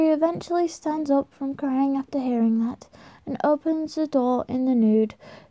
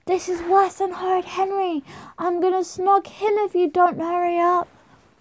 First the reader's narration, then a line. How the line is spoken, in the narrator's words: Margrot is getting even more moody and she screams through the letterbox